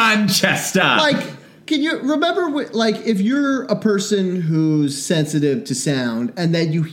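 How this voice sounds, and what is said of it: Usual voice. Nothing is said of it.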